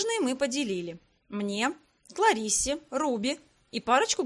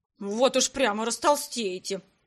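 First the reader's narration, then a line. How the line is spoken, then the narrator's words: Grumbling. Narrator (Russian): Пробурчала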